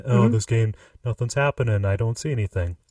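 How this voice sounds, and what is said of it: Dim-witted stupid person voice. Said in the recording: “my stupid person voice”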